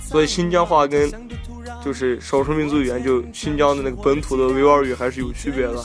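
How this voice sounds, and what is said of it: Slight Xinjiang accent in Mandarin. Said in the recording (Chinese): “像我现在说话呀，怎么会带一点口音的，就是新疆话的口音”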